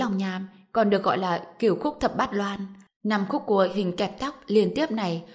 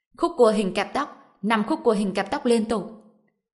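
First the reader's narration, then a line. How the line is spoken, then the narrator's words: Loud shout. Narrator (Vietnamese): có người cao giọng hét lên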